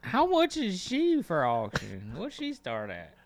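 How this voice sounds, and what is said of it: Put-on accent. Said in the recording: “Is that the fucking accent? The accent.”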